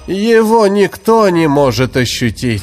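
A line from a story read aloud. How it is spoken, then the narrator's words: Dull-voiced priest. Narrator (Russian): Потухшим голосом ответил жрец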